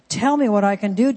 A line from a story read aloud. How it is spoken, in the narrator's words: Jonathan exclaimed